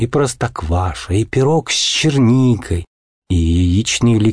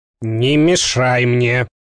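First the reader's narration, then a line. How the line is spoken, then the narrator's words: Angry reply. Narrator (Russian): злобно ответил Хемуль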